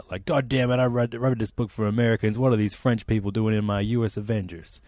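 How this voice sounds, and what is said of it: Exaggerated patriotic American accent. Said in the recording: “I sound like a weird patriot ... I'll never do that accent again”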